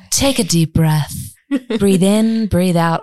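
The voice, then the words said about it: Put-on American accent, meditation voice. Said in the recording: “In your American accent”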